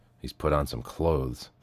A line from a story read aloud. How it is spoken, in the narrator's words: the man muttered